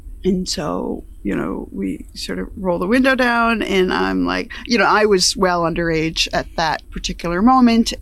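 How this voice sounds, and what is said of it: Upstate New York accent. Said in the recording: “we grew up in upstate New York, so my pattern and style of speech, my accent, is pretty much how people sounded there”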